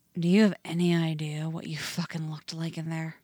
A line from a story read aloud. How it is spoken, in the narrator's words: Jason growls right next to his ear